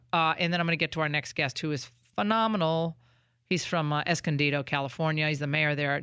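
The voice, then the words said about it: Congested, stuffy voice. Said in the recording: “I'm still congested ... I've had this congestion for now 2-plus weeks that I cannot get rid of ... excuse my voice.”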